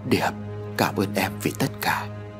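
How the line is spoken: Soft. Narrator (Vietnamese): Ông Hải khẽ nói

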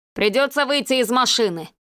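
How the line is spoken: Harsh bark, gunman. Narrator (Russian): рявкнул автоматчик

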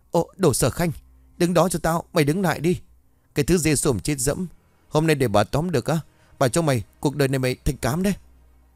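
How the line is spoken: Hasty loud screaming. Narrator (Vietnamese): Thủy Dung vội vàng hét toáng lên

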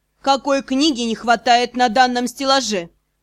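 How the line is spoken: Sharp question. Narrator (Russian): Резко спросил магистр

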